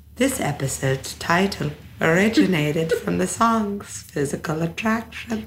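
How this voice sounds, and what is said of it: Slow reading in a weird accent. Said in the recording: “Read it as slow as fucking possible ... I was speaking in this really weird accent”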